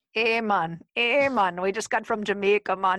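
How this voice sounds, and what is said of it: Poor put-on Jamaican accent. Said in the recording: “That's the worst Jamaican accent ever”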